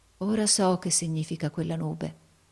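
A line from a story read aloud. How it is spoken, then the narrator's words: Murmured. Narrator (Italian): mormorò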